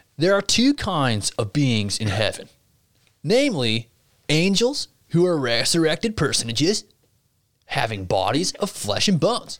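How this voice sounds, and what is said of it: Put-on bro accent. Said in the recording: “I should just read this in like a little like bro accent.”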